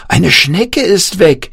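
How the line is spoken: Called out. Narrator (German): rief Jan

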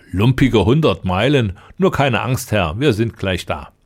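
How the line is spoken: Laughing. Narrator (German): lachte der Lange

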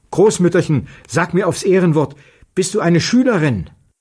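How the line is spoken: Calling out. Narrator (German): Petja rief der Alten zu

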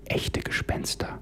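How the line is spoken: Faint trembling whisper. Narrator (German): Rebecca flüsterte mit zittriger Stimme und kaum hörbar

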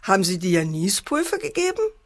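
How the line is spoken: Mocking father. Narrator (German): spottete der Vater

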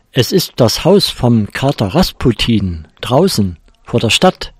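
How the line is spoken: Small mouse calling out. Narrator (German): rief die kleine Maus

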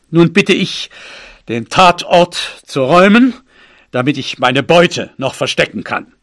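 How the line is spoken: Father calling out. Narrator (German): rief mein Vater

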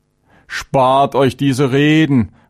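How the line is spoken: Angry hot-tempered shout. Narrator (German): rief Chavenes aufbrausend

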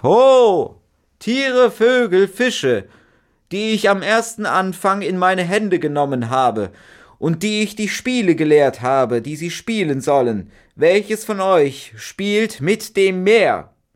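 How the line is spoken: Old magician calling out. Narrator (German): rief

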